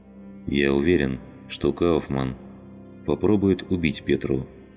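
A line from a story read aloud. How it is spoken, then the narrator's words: Calm. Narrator (Russian): спокойно произнес Фадеев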